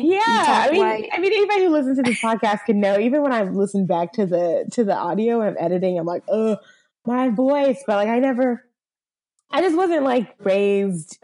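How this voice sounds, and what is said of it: Valley girl accent. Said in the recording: “my very valley girl accent”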